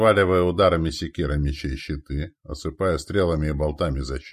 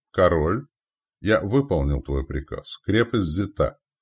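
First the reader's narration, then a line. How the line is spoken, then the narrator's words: Solemn report. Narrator (Russian): торжественно доложил повелителю ярл Рагнар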